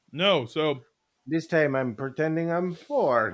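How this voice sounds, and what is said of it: Put-on Romanian accent. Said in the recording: “That's my Romanian accent, by the way.”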